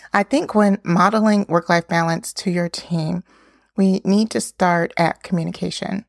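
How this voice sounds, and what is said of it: Voice a little off, like a cold. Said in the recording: “Excuse my voice a little bit. I think I'm either getting over a cold or coming into a cold”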